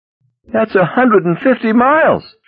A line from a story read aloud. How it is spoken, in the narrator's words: she wailed